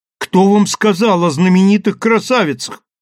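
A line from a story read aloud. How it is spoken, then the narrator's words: Indignant exclamation. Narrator (Russian): воскликнул почти негодующий Дайарам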